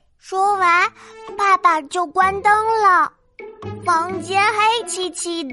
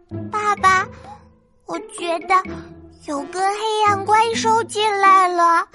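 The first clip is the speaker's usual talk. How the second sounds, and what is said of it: Quiet, hushed child's voice. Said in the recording (Chinese): “小声”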